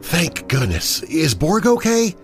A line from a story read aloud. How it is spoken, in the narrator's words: Adeline lets out a sigh of relief and says